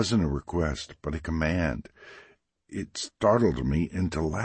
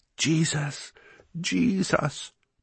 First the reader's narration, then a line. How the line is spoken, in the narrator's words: Deborah cried